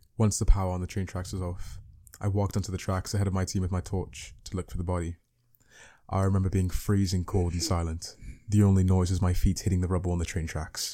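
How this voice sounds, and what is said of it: Put-on British accent. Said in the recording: “I can't go on now unless I read it in a British accent.”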